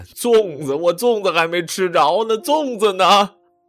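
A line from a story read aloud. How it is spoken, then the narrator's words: Crying shout. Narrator (Chinese): 我哭着喊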